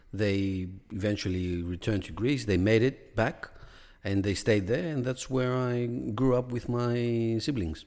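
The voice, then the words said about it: Greek accent. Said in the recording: “Australian born, Greek raised ... with an accent there.”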